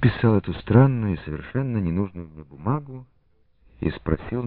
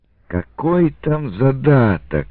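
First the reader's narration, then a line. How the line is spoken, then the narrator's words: Angry. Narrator (Russian): сердито ответил Шуйский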